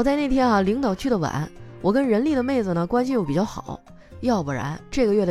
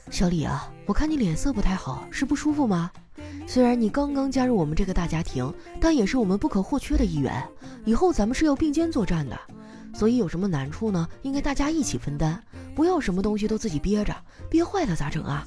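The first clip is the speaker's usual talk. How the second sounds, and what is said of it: Quiet whispered speech. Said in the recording (Chinese): “凑到他耳边小声地说”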